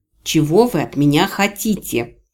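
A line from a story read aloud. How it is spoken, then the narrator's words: Low weary growl. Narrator (Russian): глухо рыкнула я, уже изрядно устав от разговора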